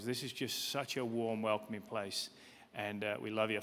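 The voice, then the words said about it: British accent. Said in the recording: “as you can probably tell from my accent. I'm from the UK”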